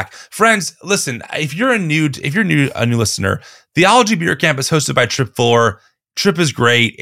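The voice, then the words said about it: Strained, failing voice. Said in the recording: “as you can hear, my voice is dying quickly.”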